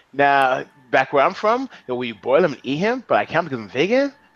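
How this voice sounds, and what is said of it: Bad put-on Australian accent. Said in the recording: “Doing an Aussie accent... That's a terrible Aussie accent”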